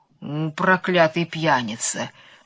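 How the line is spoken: Grumbling to himself. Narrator (Russian): проворчал про себя сеньор Помидор

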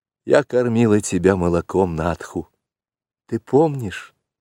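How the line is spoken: Timid question. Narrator (Russian): робко спросила Мессуа

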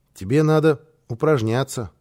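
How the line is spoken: Plain, child. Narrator (Russian): сказал малыш

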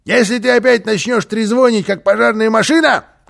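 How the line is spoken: Shouted. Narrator (Russian): крикнул он

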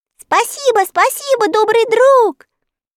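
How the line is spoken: Children shouting after. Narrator (Russian): крикнуть вслед ему дети

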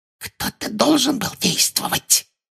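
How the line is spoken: Whispering. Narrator (Russian): прошептала Амбридж

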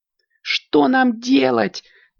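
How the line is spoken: Shouting. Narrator (Russian): кричала Аленка

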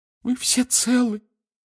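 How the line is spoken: Distressed sob. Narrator (Russian): всхлипнула миссис Уизли, в смятении

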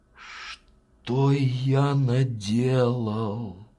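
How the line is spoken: Sighing. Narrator (Russian): вздохнул он

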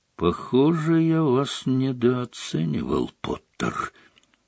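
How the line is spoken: Quiet. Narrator (Russian): негромко сказал он

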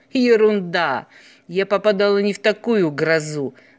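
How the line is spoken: Laughing sailor. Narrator (Russian): засмеялся моряк

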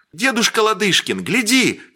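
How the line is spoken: Shouted. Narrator (Russian): крикнул Сергей

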